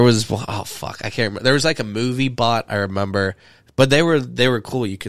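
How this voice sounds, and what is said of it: Usual voice. Nothing is said of it.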